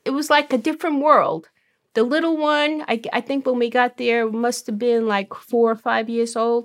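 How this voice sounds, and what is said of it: Brooklyn accent. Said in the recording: “originally from Brooklyn. Maybe you can tell by her accent.”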